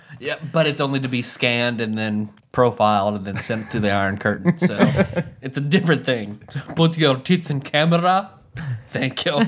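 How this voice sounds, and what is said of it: Put-on Russian accent. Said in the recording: “The rare ... Russian accent ... Actually, you're pretty good at that.”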